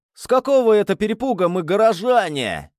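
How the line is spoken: Roaring. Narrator (Russian): взревел Густаво

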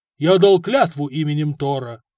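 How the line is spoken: Booming. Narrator (Russian): прогудел воин

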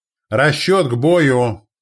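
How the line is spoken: Shout. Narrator (Russian): крикнул он

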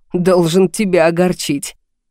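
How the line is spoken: Hoarse laughing reply. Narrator (Russian): Хрипло засмеялись в ответ

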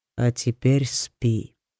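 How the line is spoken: Calm. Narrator (Russian): спокойно сказал сокол

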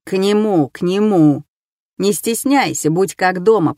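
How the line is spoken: Grumbling. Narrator (Russian): пробурчал я

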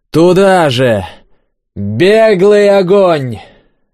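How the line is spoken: Loud yell. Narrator (Russian): заорал Дубин

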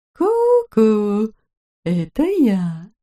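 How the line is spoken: Ingratiating soft voice. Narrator (Russian): Церберенок вкрадчиво сказал

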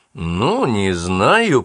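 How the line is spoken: Drawl. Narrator (Russian): протянул

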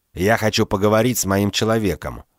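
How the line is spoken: Curt, clipped. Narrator (Russian): отрывисто бросил он

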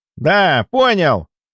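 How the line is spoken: Young man shouting. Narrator (Russian): крикнул парень

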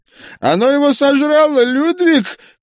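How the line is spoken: Distant preacher's shout. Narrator (Russian): крикнул проповедник из-за кустов

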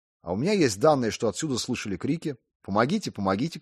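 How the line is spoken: Shouting. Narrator (Russian): кричали

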